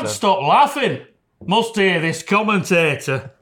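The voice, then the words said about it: Put-on Yorkshire accent. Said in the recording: “I'll have to do it in a Yorkshire accent”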